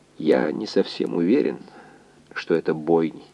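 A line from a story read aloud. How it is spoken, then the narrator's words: Quiet reply, doctor. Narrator (Russian): тихо ответил доктор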